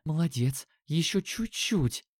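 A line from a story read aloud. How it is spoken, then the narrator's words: Barely audible whisper. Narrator (Russian): Едва прошептала Катя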